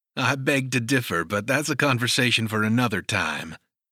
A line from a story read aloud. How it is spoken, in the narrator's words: chuckled